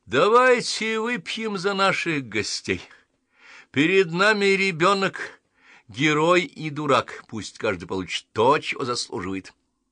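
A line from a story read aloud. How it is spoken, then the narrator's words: Jester's loud proclamation. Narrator (Russian): Шут ... кашлянул и громко провозгласил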